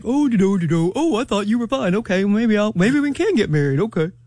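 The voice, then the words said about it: Imitates a man's voice. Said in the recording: “my man impersonation”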